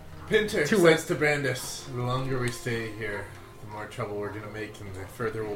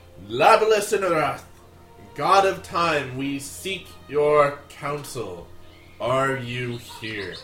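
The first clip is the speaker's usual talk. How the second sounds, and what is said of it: Loud, booming calling voice. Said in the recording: “in a loud telepathic voice”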